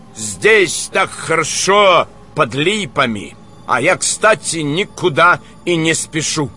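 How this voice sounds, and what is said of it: Strong foreign accent. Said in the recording (Russian): “с резким акцентом”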